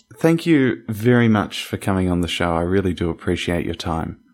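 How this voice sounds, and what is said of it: Australian accent. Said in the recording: “I'm from Australia... your accent is a little bit different”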